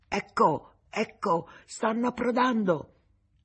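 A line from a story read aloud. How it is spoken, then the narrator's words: Lookout shouting. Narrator (Italian): la vedetta gridò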